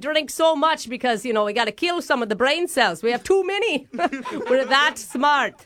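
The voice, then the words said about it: Exaggerated mixed British Isles-Australian accent. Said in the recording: “my Australian, Irish, British, Scottish accent? ... It's really hard to listen to”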